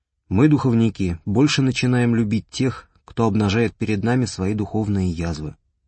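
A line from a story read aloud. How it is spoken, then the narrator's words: Calm, even, dispassionate. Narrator (Russian): все тем же спокойным и ровным, бесстрастным голосом отвечал отец Герман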